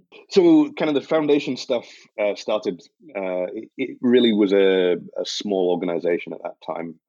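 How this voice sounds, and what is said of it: Non-North American accent. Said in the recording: “Still got the accent ... your first board member from outside of North America”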